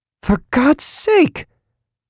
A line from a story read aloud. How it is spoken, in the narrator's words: a female voice declared furiously